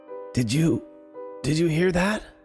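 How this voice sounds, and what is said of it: Soft, meek old woman's whisper. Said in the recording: “Her voice was so soft and meek that I had to lean in close ... My grandma cleared her throat and whispered”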